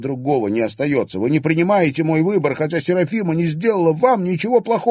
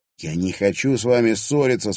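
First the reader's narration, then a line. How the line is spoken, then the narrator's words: Calm. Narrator (Russian): спокойно проговорил Клим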